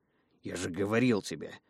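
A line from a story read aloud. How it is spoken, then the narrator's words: Grumbling over shoulder. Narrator (Russian): заворчал у меня над плечом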